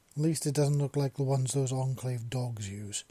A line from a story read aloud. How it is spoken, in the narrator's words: she growled